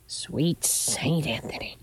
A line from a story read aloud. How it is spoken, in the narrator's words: she muttered